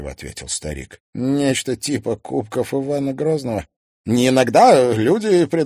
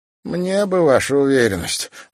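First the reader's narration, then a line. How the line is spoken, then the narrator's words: Sighing. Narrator (Russian): вздохнул Зверев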